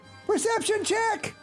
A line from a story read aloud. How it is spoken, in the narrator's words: He yells over